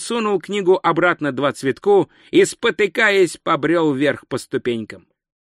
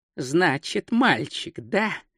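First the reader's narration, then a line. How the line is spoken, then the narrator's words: Muttering. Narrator (Russian): бормотал он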